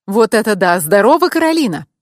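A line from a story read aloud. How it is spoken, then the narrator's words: Cheerful exclamation. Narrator (Russian): весело воскликнул он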